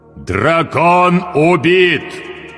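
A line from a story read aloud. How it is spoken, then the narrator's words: Loud iron-voiced proclamation. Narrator (Russian): провозгласил он железным голосом так громко, что услышали все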